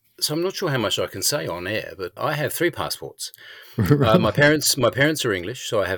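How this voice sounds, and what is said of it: Slightly English accent. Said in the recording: “your accent is a little bit English”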